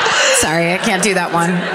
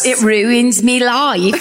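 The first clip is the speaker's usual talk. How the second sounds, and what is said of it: Put-on British accent. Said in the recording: “You're like a British popper or something. ... your chimney sweep. ... Beatles head injury accent.”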